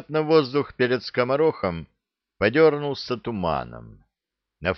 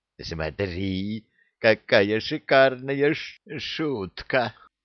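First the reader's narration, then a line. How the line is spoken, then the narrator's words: Hissed close to ear. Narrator (Russian): прошипел над ухом рыжего паяц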